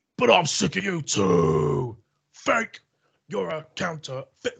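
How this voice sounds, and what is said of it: Imitates another person's voice, badly. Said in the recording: “that bad Fred Durst impression”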